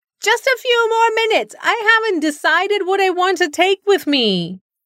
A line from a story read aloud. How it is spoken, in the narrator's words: Sudha whined